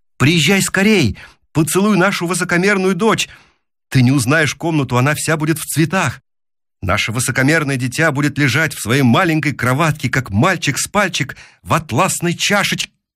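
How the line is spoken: Hurried shouting. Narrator (Russian): я поспешно кричал

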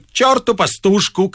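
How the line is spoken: Shout. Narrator (Russian): крикнул Остап

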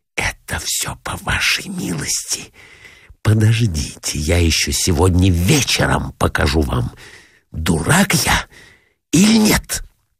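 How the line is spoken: Furious whisper. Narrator (Russian): Раздраженный до крайности, злобно прошептал

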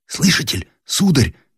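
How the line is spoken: Trembling whisper. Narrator (Russian): шепнул Андрей дрожащим голосом

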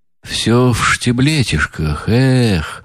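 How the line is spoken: Sigh. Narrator (Russian): Вздохнул он

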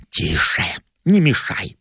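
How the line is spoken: Whispered. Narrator (Russian): прошептал я

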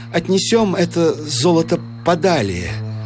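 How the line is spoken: Trembling voice. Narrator (Russian): сказал Гукер дрожавшим голосом

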